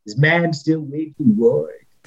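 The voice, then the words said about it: Imitates another person's voice. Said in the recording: “my poor man's impersonation of Robert Stack and Charlton Heston ... that's a bad impersonation”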